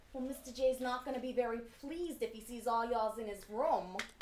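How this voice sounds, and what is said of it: Put-on accent, done well. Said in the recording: “you should have heard your accent. It was really good.”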